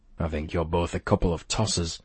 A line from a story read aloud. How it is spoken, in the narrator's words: I mumbled